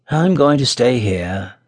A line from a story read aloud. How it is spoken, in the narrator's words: answered Tom in a very forlorn voice